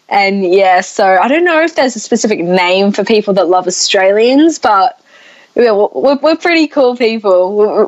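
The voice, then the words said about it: Australian accent. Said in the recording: “the Australian accent. And yes, I'm going to make you talk as much as I possibly can because I'm enjoying that accent”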